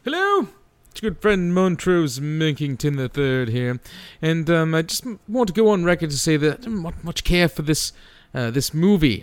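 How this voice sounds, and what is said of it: Put-on British accent, chimp character. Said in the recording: “this delightful British chimp whose accent is not put on in any way, shape, or form whatsoever.”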